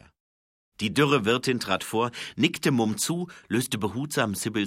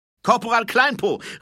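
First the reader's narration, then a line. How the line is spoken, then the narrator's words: Embarrassed call. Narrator (German): rief er, um seine Verlegenheit zu verbergen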